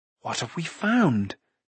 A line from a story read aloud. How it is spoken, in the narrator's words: Taran whispered